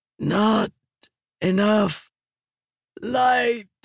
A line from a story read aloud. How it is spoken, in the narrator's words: Raboniel croaked